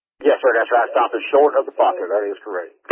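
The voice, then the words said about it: Southern drawl. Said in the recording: “My southern drawl, am I talking too fast?”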